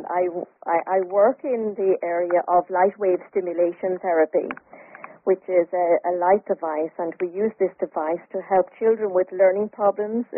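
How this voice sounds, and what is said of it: Irish accent. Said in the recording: “you have an accent ... Indeed, I do have an accent. I'm from Ireland.”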